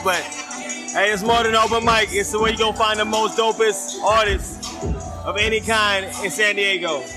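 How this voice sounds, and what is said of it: Southern country American accent. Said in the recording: “I'm from Charlotte, North Carolina. You can't tell with the accent. ... I'm country.”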